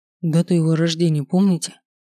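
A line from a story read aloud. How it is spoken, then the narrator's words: Plain. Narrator (Russian): спросил Слава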